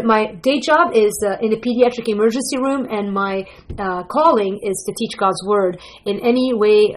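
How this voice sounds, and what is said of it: Lebanese accent mixed with Wisconsin. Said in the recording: “I'm Lebanese. My accent, ... you're probably like, where is she from? ... I'm from Lebanon, and moved to Green Bay, Wisconsin, which pretty much kind of messes me up completely”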